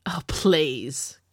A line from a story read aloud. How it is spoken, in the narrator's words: Camilla scoffed